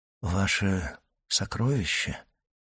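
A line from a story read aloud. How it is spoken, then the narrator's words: Whisper. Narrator (Russian): прошептал Дантес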